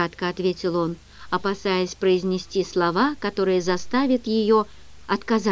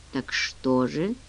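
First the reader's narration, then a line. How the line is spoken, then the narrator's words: Tired, fearful question. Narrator (Russian): устало спросил он, боясь ответа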